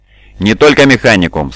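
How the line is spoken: Plain. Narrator (Russian): сказал он

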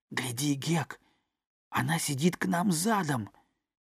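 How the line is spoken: Whisper, boy. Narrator (Russian): Том прошептал

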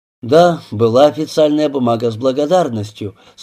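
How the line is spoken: Dry. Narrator (Russian): сухо отозвался Васин

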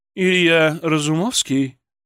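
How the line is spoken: Low velvety husky voice. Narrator (Russian): Ее голос был низким, бархатистым, с легкой хрипотцой

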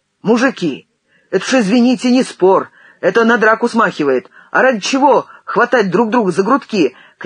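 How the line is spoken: Shouting. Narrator (Russian): кричал Костя Герасимов

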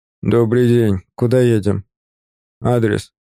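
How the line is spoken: Gruff mutter, tired old man. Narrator (Russian): Буркнул водитель, пожилой мужчина с усталыми глазами

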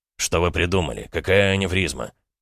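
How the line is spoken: Grumbling surgeon. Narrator (Russian): пробурчал хирург

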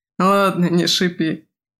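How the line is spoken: Laughing. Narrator (Russian): рассмеялся Симая

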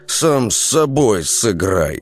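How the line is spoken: Through gritted teeth. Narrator (Russian): процедил сквозь зубы Лунь

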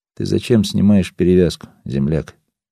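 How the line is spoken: Plain. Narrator (Russian): снова спросил я

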